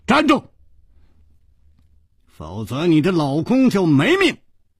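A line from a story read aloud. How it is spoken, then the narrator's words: Shouted. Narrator (Chinese): 楚留香喊道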